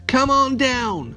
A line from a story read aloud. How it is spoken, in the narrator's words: cried Mater